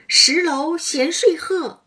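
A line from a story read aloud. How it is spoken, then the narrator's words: Laughing shout. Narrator (Chinese): 湘云笑弯了腰，喊道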